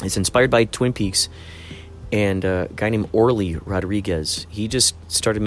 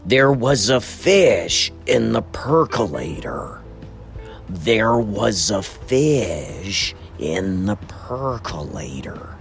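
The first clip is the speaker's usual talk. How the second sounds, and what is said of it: Twin Peaks fisherman character voice. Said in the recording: “I'm doing the voice of... The guy who goes fishing and he finds... Wrapped in plastic.”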